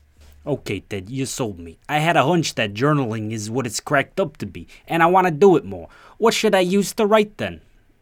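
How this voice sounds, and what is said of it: Put-on New York accent. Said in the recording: “I can hear you ask in a New York accent.”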